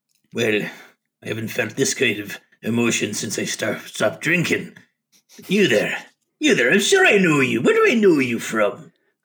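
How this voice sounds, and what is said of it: Character voice with an accent. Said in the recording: “you almost instantly recognize that accent... That voice is one you haven't heard in decades.”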